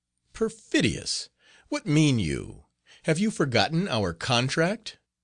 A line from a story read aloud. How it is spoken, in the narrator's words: The fiend answered by a malicious laugh